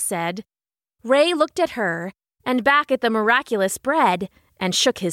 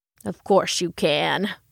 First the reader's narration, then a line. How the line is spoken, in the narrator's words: Ray grumbled